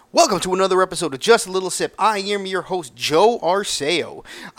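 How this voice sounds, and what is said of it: Put-on radio announcer voice. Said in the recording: “I am trying out this radio voice ... when I start doing this, it is automatically associated with the radio voice”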